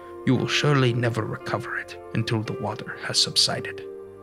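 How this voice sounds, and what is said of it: Solemn, vaguely Eastern European accent. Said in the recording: “told me solemnly in a vaguely Eastern European accent”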